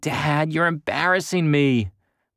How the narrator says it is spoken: groan

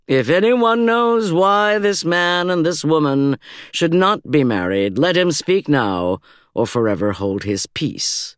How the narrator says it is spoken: the pastor intoned

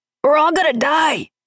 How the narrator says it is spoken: yelled the monster

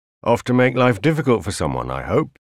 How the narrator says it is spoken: Carl grunted in passing

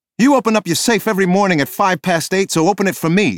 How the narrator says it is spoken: she screamed at the manager

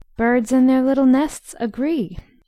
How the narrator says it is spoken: sang Beth, the peacemaker, with such a funny face

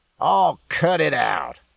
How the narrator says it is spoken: growled, and again a whine tinged his words

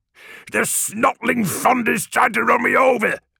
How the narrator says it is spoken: yelled

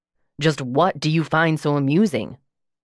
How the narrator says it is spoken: he demanded harshly

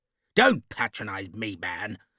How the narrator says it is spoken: Lord Marston snapped

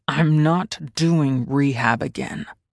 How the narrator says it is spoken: growled at him, the pain of substance withdrawal clawing at every part of my body

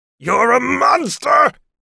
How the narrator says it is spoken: He screamed his very last word

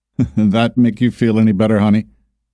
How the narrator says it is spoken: Mark asked with a chuckle

